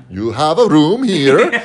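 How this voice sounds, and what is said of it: Good put-on Swedish accent. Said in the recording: “That was a good Swedish accent”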